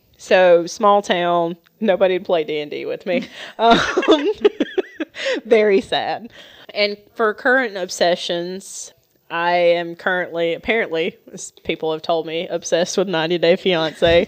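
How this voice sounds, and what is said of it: Southern US accent. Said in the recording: “I'm a southern gal ... she's a nice southern lady ... I'm a little bit of a southern belle ... adding an accent on top of my accent”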